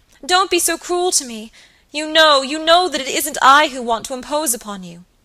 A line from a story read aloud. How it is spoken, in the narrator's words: cried Phoebe piteously